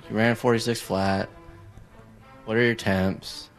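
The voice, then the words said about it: Gloomy, depressed-sounding voice. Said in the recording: “in a really depressing voice”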